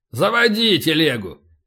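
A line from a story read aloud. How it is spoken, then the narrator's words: Barked. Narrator (Russian): рявкнул полубой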